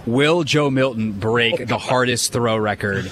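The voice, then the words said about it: Sarcastic tone. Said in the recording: “I hope you can tell my tone of voice. This is about to be very sarcastic.”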